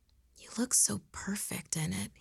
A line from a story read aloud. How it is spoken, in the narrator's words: he whispered